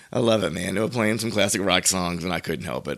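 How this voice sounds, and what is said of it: Hoarse, deep raspy voice. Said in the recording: “I'm a little I'm a little hoarse from singing at the wedding yesterday ... now I sound like Barry White over here”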